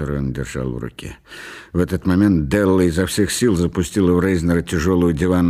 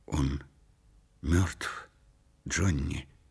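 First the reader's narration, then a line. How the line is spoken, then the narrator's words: Quiet. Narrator (Russian): негромко произнесла Делла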